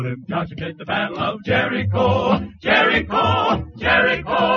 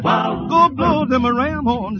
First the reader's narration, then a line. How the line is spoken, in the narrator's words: Joshua cried